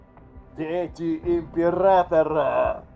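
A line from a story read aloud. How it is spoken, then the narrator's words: Booming over vox, laughter. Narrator (Russian): прогремел по воксу голос и раскат смеха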